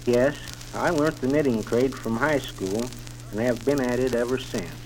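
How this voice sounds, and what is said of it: Slight Southern American accent. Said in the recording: “do I detect a little southern accent in your voice?”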